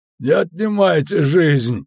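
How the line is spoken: Moaning plea. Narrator (Russian): простонал Мирман

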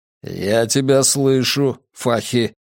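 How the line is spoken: Grumble. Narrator (Russian): проворчал Матиас

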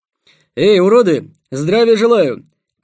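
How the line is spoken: Shout through cupped hands. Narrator (Russian): крикнул Ростислав, сложив ладони рупором

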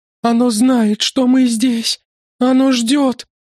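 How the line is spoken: Sobbing moan. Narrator (Russian): Застонала она, всхлипывая

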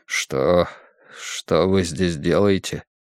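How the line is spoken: Barely audible question. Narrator (Russian): чуть слышно спросил он

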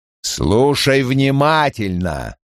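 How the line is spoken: Growl. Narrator (Russian): прорычал Крэмер

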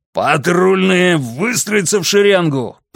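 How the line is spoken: Roaring command. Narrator (Russian): проревел Моррисон

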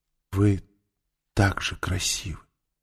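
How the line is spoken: Whisper. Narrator (Russian): прошептала она

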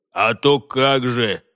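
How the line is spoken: Dwarf's snort. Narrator (Russian): хмыкнул гном

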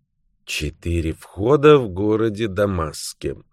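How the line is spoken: Barely audible reading. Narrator (Russian): чуть слышно прочитал мистер Паркер Пайн

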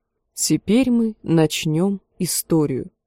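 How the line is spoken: Plain. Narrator (Russian): сказала она

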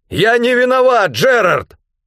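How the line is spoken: Hurried shout. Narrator (Russian): Только и успел выкрикнуть я

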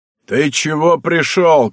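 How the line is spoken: Shout. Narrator (Russian): кричал кому-то Добрыня

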